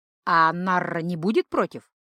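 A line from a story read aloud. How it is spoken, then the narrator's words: Snort. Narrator (Russian): хмыкнул Гархаэт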